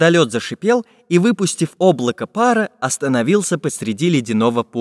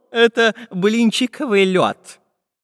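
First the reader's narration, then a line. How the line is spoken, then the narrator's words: Laughing. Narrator (Russian): засмеялся географ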